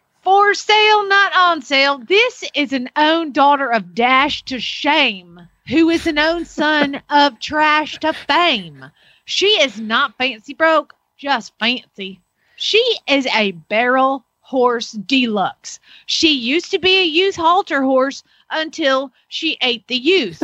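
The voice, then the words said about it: Put-on Southern American accent. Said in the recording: “I got to read this in a southern accent”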